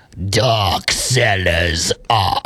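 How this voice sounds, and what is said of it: Exaggerated scary spooky voice. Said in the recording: “do a really scary voice”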